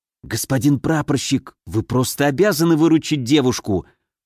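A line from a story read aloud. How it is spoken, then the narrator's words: Hissed in ear. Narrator (Russian): прошипел он мне на ухо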